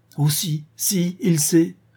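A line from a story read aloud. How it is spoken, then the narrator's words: Distressed young woman exclaiming. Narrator (French): s'écria la jeune femme en se tordant les mains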